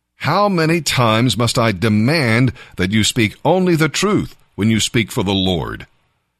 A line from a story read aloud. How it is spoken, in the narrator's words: the king replied sharply